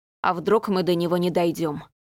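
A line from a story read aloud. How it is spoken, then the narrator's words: Gloomy. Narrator (Russian): мрачно предположил Рудольф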